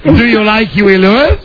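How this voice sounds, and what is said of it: Put-on Spanish accent. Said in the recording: “Now I'm going to speak in my Spanish accent”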